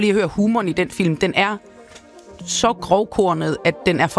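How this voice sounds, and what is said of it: Usual voice. Nothing is said of it.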